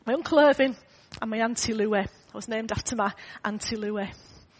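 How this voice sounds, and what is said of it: Hoarse, failing voice. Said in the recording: “I keep losing my voice”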